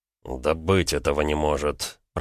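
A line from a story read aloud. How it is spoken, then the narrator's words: Muttering. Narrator (Russian): пробормотал Гаранин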